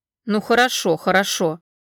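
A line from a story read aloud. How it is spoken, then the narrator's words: Wry snort. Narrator (Russian): хмыкнул Таир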